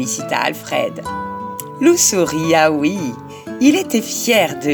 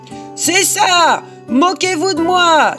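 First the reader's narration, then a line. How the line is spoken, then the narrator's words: Angry shout. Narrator (French): hurla-t-il très en colère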